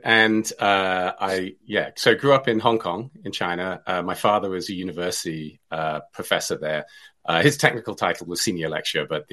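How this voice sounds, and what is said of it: Hong Kong Chinese accent. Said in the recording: “I sound a bit funny, and that's because I grew up in China ... I speak differently from others ... you had an accent ... So I have an accent”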